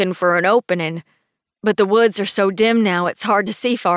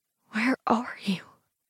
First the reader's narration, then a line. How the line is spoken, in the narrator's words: whisper